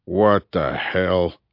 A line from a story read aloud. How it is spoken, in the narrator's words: growled Top